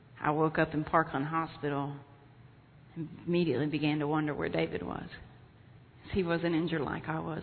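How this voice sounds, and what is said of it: Texan accent. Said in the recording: “Dallas, Texas, where I'm from, in case you're wondering where this lovely accent is from”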